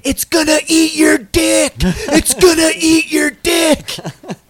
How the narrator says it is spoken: woman started screaming

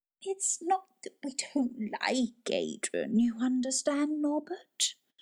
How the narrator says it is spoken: Grandma Drew whimpered

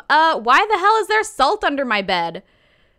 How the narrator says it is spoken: he still has a fever, but he yells from his room

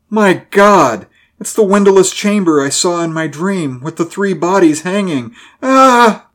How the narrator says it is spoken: Griswell cried out

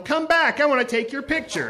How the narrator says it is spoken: yelled

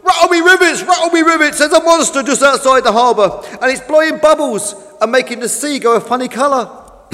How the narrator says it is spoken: Fish began to get very scared and rushed back into port, shouting to the other boats

